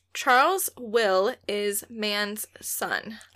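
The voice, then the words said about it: Slow, drawn-out delivery. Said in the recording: “say it slowly, such as I'm about to say ... When you say it slowly,”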